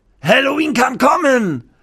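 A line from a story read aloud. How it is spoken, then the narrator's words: Called out. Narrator (German): ruft der Koch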